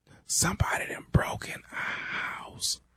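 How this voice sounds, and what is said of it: Whispering. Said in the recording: “why in the hell you whispering?”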